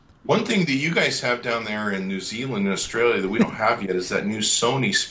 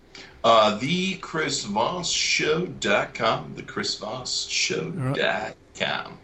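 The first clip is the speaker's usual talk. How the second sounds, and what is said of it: Put-on radio announcer voice. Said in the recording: “Was that a radio voice you're trying to do there?”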